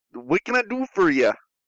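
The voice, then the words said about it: Put-on Canadian accent. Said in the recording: “Canadian accent”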